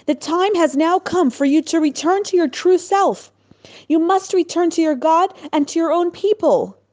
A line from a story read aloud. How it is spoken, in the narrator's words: he called out with great emotion